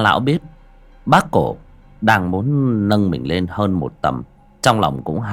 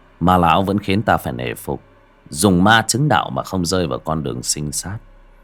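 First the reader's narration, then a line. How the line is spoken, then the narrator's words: Smiling. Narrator (Vietnamese): Bác cổ và ma lão mỉm cười nói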